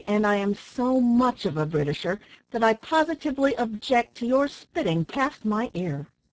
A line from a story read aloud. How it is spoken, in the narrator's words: answered Ned somewhat angrily